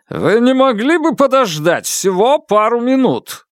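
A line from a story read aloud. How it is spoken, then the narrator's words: Impatient bark. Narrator (Russian): рявкнул он, явно потеряв терпение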